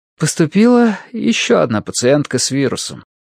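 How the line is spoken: Sigh. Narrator (Russian): вздохнула Мэри

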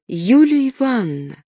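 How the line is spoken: Exclaiming little fir tree. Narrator (Russian): воскликнула елочка

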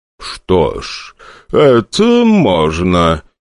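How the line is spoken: Drawling voice. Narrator (Russian): тягучим голосом ответил тот

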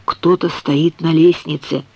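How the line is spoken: Very quiet. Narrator (Russian): сказал очень тихо

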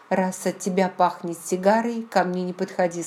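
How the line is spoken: Plain. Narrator (Russian): сказала я

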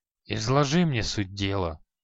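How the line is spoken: Reluctant mutter. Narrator (Russian): неохотно пробурчал Халай

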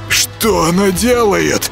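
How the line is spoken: Hoarse wheeze. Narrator (Russian): просипел Юрка

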